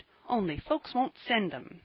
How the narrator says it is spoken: he added, in an injured tone

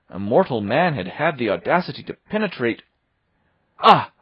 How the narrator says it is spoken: I cried

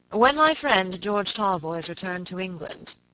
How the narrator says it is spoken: Robert began gravely

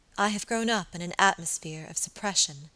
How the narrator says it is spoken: she said quietly

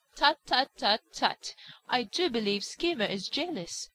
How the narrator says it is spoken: cried Jenny Wren

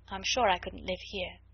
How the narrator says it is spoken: she added in a low voice

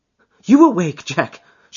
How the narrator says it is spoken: she cried with a nervous laugh

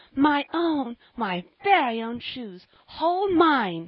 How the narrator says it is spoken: she cried

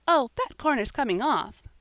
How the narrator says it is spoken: cried Polly cheerfully

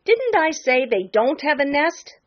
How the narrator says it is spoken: sputtered Jenny

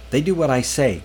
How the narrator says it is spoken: Manning snapped

